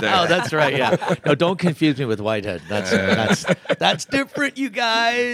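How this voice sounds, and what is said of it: Canadian accent with British tinges. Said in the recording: “it's a Canadian accent ... Like your accent dips in and out of Canadian and British.”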